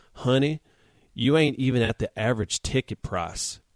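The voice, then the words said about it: Little Southern voice. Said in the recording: “in this little southern voice.”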